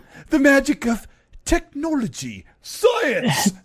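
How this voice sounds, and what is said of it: Terrible put-on British accent. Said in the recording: “is that a British accent? Because that's terrible.”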